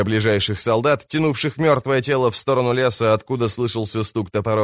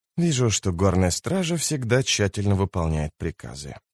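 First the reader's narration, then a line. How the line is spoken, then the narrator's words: Quiet. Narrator (Russian): сказал он негромко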